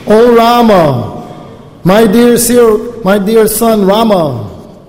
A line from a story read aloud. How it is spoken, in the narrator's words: Lamenting in grief for the death of her husband, the most chaste Renuka cried very loudly